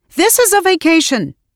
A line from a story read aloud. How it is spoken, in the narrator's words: shouted